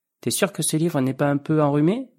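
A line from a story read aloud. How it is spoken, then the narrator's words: Plain. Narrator (French): demanda-t-il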